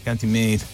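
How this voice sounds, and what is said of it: Put-on Irish accent. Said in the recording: “great Irish accent again... It's good if you've never met anybody from Ireland... our Irish impressions are rubbish”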